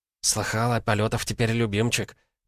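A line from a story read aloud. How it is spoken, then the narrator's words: Whispered into ear. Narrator (Russian): прошептала на ухо соседке Вера Соколова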